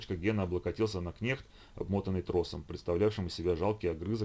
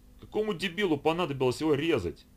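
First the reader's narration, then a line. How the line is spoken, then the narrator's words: Exclamation. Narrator (Russian): воскликнул Владимир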